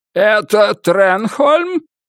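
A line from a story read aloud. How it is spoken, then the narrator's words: Laughing. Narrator (Russian): Уильям рассмеялся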